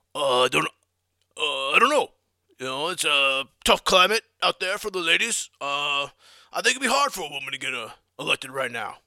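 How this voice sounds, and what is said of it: Bad Bernie Sanders impression. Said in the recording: “That's the worst impression of all time.”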